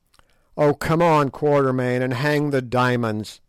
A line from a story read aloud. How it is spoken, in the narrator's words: said Sir Henry